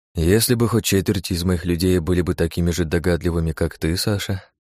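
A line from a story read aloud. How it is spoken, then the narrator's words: Long sigh. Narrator (Russian): Багратион протяжно вздохнул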